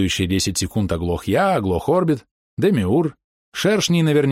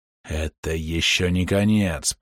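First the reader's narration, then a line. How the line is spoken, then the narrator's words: Serpent's hiss. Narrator (Russian): прошипел змей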